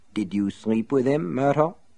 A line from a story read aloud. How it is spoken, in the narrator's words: he asked softly